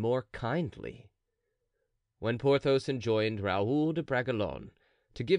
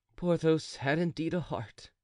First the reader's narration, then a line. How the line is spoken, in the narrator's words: said D'Artagnan to himself with a sigh